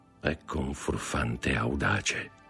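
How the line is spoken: Murmured. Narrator (Italian): mormorò

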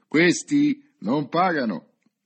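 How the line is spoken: Loud, clear announcement. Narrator (Italian): ordinò a voce alta, disse, anche per farsi intendere subito

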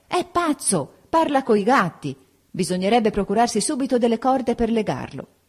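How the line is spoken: Shouted. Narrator (Italian): Anna gridò

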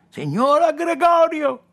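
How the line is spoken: Shouted. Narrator (Italian): gridò

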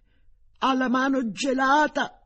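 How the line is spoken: Mother's desperate screaming. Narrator (Italian): La mamma urlava disperatamente

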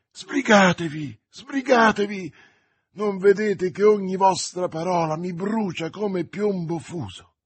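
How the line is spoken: Exclaimed. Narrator (Italian): Felton esclamò

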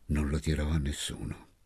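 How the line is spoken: Low voice. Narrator (Italian): mi disse a bassa voce

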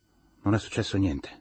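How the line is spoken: Tired voice. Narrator (Italian): disse con voce stanca

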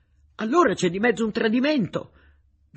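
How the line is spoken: Shouting, forgetting to keep quiet. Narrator (Italian): gridò Konakos, scordandosi che bisognava stare zitti

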